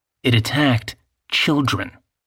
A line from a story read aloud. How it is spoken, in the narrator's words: Charles said